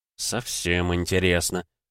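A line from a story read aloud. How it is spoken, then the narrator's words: Muttered. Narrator (Russian): пробормотал Дронго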